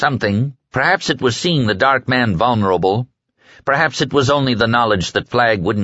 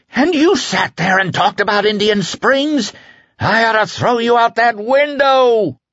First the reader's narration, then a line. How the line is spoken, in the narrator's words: Flagg screamed